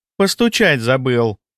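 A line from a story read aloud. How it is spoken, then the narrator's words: Snide. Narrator (Russian): ехидно произнесла Агаши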